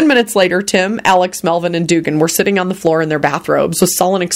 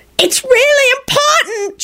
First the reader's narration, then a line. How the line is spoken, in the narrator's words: shrieked a loud, whining voice